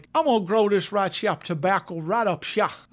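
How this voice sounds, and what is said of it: Put-on Southern American accent. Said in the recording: “I'm pretty sure he didn't talk like that... I love all you people in the South.”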